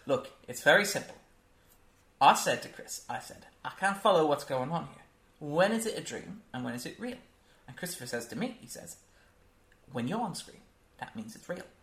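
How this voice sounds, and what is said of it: Poor imitation of a British actor. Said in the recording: “that was a terrible... That was my terrible Michael Caine impression.”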